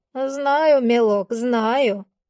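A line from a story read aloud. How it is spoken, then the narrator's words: Sighing old woman. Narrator (Russian): вздохнула бабуля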